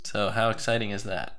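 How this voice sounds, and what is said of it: Flat, unexcited voice. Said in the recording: “More exciting than my voice sounds?”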